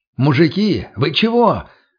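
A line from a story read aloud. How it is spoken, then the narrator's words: Loud question. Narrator (Russian): громко спросил я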